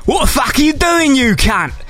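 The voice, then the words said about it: Aggressive Cockney / Essex accent. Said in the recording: “the only impression I do ... Cockney, very aggressive Cockney / Essex”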